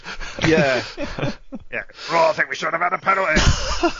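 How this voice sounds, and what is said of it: Gravelly imitation of another person's voice. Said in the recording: “your Sean Dyche impression ... need to chew some gravel first ... That was more like Zippy from Rainbow”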